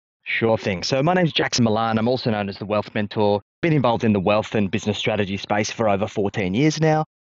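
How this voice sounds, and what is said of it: Australian accent. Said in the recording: “You have a very cool accent... Us Australians say, we don't have an accent.”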